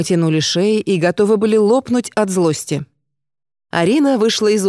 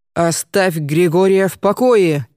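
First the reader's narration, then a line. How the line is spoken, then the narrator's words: Powerful deep booming female voice. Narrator (Russian): воскликнула незнакомка мощным голосом, низким и звучным, как пароходный гудок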